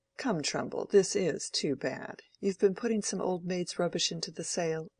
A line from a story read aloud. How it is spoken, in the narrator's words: murmured Mr